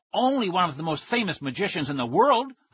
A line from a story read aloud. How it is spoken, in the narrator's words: I exclaimed